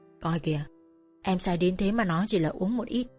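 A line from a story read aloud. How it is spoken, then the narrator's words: Soft chuckle. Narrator (Vietnamese): Anh cười khẽ bảo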